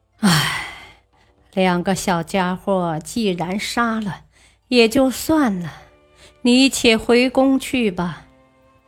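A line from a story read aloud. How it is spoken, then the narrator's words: Sighing. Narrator (Chinese): 武则天叹了口气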